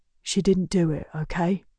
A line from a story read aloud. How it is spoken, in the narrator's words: He whispers